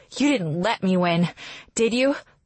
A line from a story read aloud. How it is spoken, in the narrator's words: gasping for breath, and ask